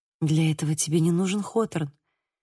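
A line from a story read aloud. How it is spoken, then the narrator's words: Gentle. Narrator (Russian): мягко сказала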